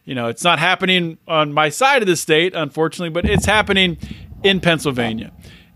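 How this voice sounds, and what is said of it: Excited voice. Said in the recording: “I don't know if you can hear it in my voice. I am so freaking excited”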